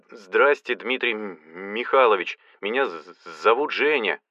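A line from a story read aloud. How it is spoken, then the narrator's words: Heavy stutter. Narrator (Russian): донесся голос сильно заикавшегося человека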